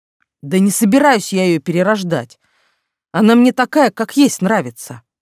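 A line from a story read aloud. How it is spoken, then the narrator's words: Sudden bark. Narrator (Russian): неожиданно рявкнул на нас Айвард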